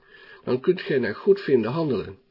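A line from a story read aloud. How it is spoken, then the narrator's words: Sighing. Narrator (Dutch): vervolgde zuchtend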